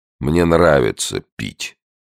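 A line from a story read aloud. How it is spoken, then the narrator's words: Gloomy. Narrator (Russian): И добавил мрачно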